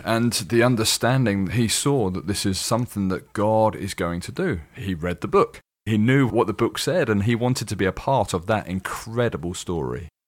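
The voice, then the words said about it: Slight British accent. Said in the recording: “you're from the UK, which is obvious. You have a slight accent. ... just a slight one.”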